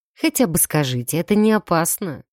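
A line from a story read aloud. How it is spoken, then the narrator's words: Sighing. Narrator (Russian): вздохнул Джер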